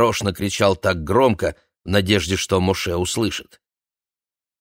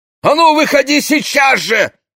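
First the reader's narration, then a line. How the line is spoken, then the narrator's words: Shouted, village man. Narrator (Russian): крикнул деревенский попиш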